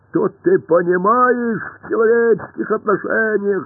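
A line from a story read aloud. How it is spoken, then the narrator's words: Roared. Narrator (Russian): взревел Пашка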